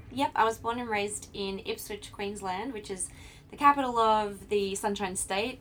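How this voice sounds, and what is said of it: Australian accent. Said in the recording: “I love your accent so much. So you're from Australia”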